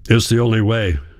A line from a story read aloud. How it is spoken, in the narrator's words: my father grunted